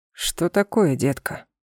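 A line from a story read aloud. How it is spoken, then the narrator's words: Quiet. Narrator (Russian): тихо произнес он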